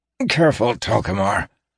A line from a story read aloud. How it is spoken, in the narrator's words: Siner gasped weakly